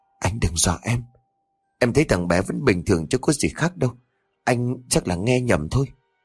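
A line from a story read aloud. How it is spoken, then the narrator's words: Trembling. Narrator (Vietnamese): Thơm run rẩy bảo chồng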